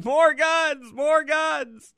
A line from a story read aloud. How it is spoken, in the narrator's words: everybody started shouting